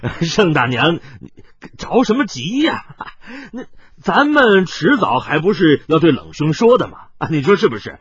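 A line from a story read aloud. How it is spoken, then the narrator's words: Several, awkward forced laughter. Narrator (Chinese): 司徒孝等人果然坐不住了，一个个干笑道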